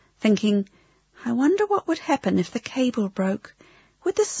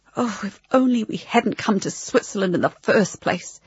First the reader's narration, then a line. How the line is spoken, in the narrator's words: he said under his breath